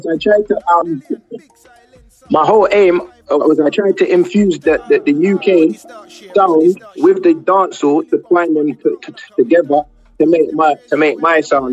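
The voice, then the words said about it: Speaks with a noticeable accent. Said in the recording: “We're loving the accent ... your accent as well”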